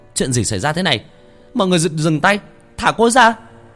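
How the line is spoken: Reflexive shout. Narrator (Vietnamese): Thằng Nguyên theo phản xạ hét lên

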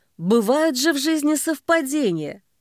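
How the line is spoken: Sudden strange grating laugh. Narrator (Russian): Соболев вдруг засмеялся странным скрипучим смехом, как будто железом по стеклу провели

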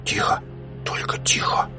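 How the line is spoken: Whispered. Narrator (Russian): шепотом добавил

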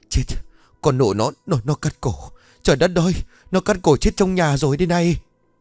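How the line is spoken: Terrified trembling woman. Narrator (Vietnamese): Bà Nhuận mặt cắt không còn giọt máu, tay chân run rẩy ... tặc lưỡi

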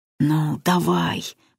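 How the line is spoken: Inner groan. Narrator (Russian): мысленно застонал Кузьма

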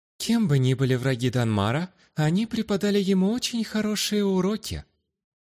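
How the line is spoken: Completely calm. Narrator (Russian): сказала она, на этот раз уже совершенно спокойным тоном

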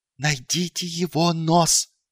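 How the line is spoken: Hissed. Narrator (Russian): прошипел он

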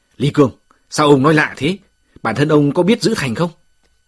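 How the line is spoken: Angry retort. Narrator (Vietnamese): Bạch Thầy Trung giận dữ, vạc lại

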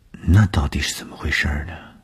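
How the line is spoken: Shy embarrassed murmur. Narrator (Chinese): 东风的脸上飞过红晕，他把眼光垂向地面，喃喃地说

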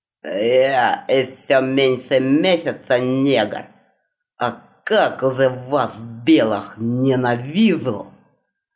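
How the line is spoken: Through clenched teeth. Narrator (Russian): Процедил сквозь зубы Минисингер, презрительно

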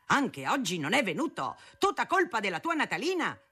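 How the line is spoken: Father thundering from corridor. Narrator (Italian): tuonava mio padre dal corridoio a mia madre

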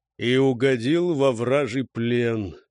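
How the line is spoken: Sigh. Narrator (Russian): вздохнул Сегар

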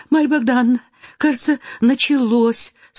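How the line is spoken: Frightened. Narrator (Russian): сказала княжна Марья

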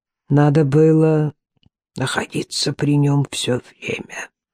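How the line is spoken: Whispered. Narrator (Russian): прошептал Старх

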